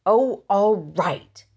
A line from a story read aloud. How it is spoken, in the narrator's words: said Henry crossly